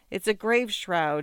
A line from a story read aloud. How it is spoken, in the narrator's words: he cried out with tears in his voice